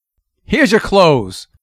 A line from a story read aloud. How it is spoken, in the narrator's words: he snapped out